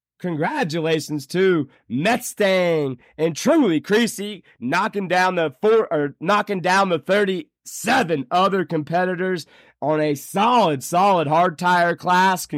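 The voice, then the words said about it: Rough, worn-out voice. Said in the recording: “my voice sounds awful. I'm still recovering.”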